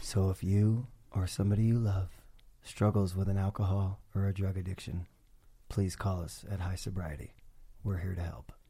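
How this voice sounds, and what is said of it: Polished commercial voiceover voice. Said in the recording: “in my best commercial voice ... Was that a good voiceover?”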